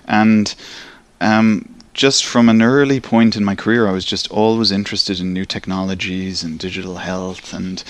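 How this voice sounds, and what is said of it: Irish accent. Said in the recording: “as you can probably tell from my accent, I'm from Ireland. So I grew up in Dublin in Ireland”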